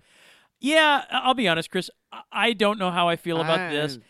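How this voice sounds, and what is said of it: Usual voice. Nothing is said of it.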